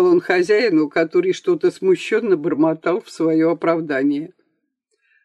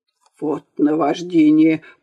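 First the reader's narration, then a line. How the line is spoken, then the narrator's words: Grumbled. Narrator (Russian): проворчал дворник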